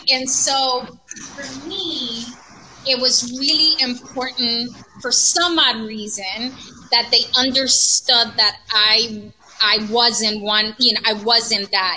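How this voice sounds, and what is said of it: Hispanic accent. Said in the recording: “I wasn't Hispanic or, I mean, my accent could say it the second that I opened my mouth”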